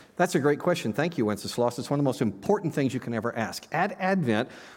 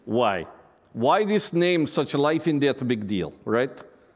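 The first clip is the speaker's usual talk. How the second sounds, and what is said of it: Imitates Good King Wenceslas character voice. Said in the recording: “your Good King Wenceslas imitation”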